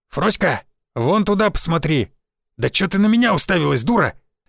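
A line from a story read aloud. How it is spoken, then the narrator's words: Barking. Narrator (Russian): рявкнул Константин Львович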